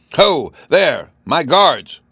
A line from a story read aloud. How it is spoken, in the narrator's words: he cried